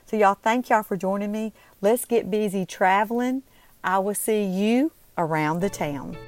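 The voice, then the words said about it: Southern US Mississippi accent. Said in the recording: “you can tell by my accent, I'm definitely a Mississippian. I'm definitely a Southern born and raised”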